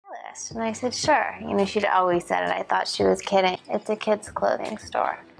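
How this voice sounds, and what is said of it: Vocal fry in almost every sentence. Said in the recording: “Kim Kardashian. She does vocal fry almost in every sentence.”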